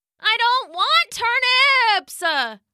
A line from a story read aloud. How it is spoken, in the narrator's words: the child wailed again